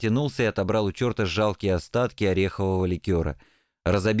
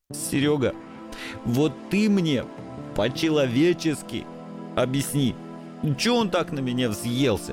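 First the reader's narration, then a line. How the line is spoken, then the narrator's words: Sobbing mutter. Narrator (Russian): Все еще всхлипывая, забормотал несчастный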